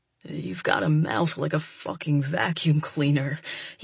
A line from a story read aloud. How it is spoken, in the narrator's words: he growls